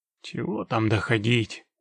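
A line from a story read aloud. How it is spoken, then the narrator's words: Grumbled. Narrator (Russian): проворчал Геральт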